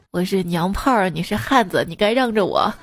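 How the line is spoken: Scornful. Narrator (Chinese): 那个男生鄙夷的一笑

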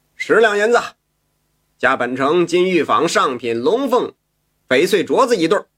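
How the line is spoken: Loud straining shout. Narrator (Chinese): 有位公子扯着喉咙喊着

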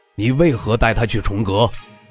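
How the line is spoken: Stern question. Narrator (Chinese): 主位之人厉声问道

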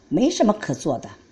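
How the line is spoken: Angry reply. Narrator (Chinese): 琳达怒气冲冲地回答道

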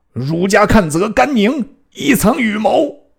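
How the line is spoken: Desperate shout. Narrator (Chinese): 何抵赖不过，大叫曰

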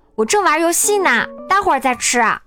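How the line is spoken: Shouted. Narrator (Chinese): 妈妈喊道

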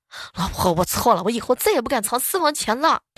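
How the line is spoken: Repeated shouting through megaphone. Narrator (Chinese): 同事啊就跪在地上，举着一个喇叭，朝着他家五楼的窗户一遍一遍的喊

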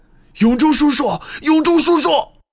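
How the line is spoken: Heartbroken screaming. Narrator (Chinese): 木武撕心裂肺地叫喊起来

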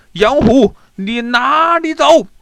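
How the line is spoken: Group shouting. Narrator (Chinese): 他们大叫道

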